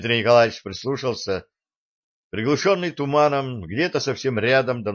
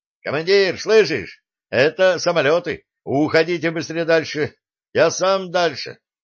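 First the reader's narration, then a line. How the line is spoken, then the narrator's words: Shout. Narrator (Russian): выкрикнул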